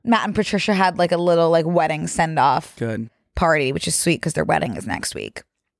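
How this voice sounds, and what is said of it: Slightly scratchy, strained voice. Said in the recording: “my voice is like a little bit scratchy ... I feel like it was scratchy before that ... I blew out my vocal cords”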